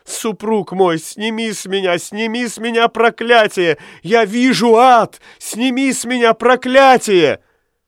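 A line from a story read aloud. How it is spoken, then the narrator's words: Sobbing, trembling plea. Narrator (Russian): Каликин, рыдая и дрожа всем телом, умолял Аламме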